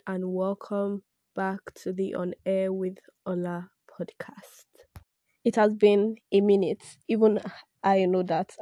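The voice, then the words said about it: Hoarse, congested voice from sore throat. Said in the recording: “my voice sounds off ... I have sore throat, catarrh, and now this morning cough has been added to the list”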